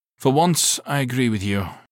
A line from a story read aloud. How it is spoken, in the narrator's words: the captain said dryly